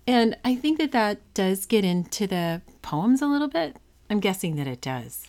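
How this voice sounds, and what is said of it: Musical, lilting up-and-down cadence. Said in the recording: “I have a little like of a musical or sort of up and down lilting to my voice compared to a more flat American accent ... I do think you have a very lilting, sort of an up and down sound to your cadence”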